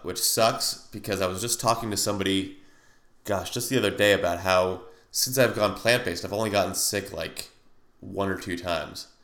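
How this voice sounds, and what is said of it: Slightly nasal, congested voice. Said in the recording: “I sound a little nasally, ... because I have a little bit of a sinus cold”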